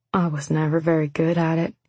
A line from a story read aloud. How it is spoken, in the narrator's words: he said more softly, gently